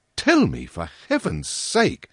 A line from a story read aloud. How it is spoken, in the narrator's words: I exclaimed